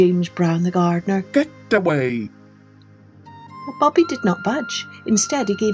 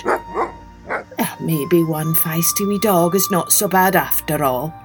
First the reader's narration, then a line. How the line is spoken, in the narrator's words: he muttered